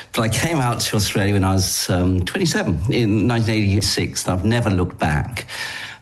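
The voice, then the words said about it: English accent. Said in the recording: “I'm English by origin... I haven't really picked up any other accent.”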